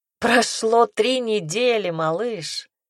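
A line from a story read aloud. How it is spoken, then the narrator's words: Laughing. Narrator (Russian): рассмеялся он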